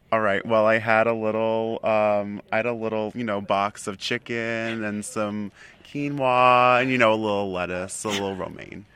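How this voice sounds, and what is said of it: Exaggerated Long Island accent. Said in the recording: “from Long Island ... this is an accent you're putting on? ... That is a full Carol Silverstein accent”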